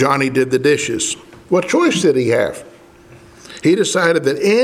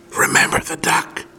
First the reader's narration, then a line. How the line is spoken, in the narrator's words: Sally'd whisper